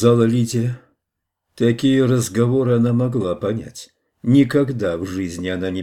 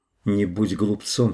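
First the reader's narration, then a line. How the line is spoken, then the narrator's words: Plain. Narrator (Russian): сказала она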